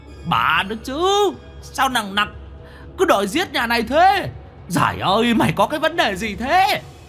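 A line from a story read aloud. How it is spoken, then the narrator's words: Demon's howl. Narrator (Vietnamese): Quỷ mõm gào lên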